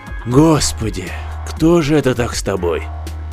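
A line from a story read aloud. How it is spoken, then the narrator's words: Exhaled, breathy. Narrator (Russian): Степаныч выдохнул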